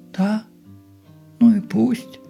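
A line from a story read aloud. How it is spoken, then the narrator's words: Deadly calm, philosophical tone. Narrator (Russian): Тем же философским, убийственно спокойным тоном, как и все выражения ее лица, проговорила Поликарповна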